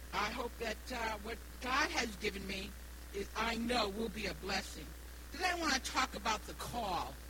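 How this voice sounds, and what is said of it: Slight New England accent. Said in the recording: “I do have an accent. My accent is from New England. I was born and raised in Rhode Island, so I do have a little bit of an accent”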